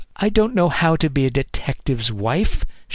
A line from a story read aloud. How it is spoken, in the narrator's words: snapped